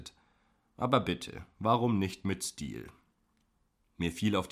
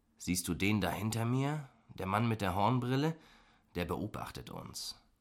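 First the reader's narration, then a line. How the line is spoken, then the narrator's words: Whisper. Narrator (German): flüsterte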